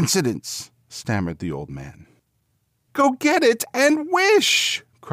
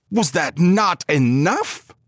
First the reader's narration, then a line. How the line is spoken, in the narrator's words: he demanded fiercely